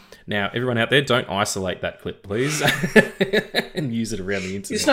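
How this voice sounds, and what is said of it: Usual voice. Nothing is said of it.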